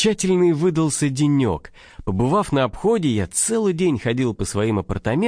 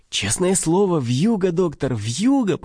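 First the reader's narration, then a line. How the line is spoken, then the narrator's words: Joyful through keyhole. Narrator (Russian): повторила она радостно в замоченную скважину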